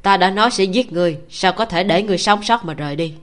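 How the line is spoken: Cold laugh. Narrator (Vietnamese): Nhiễm Cốc Nhất Lan cười lạnh lùng nói

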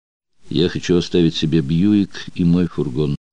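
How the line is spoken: Calm. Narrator (Russian): спокойно сказала Адетта

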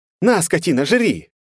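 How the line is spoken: Shouting. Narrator (Russian): крикнул Диман

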